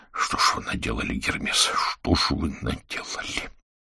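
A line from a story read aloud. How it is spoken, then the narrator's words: Whisper. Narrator (Russian): Виктор прошептал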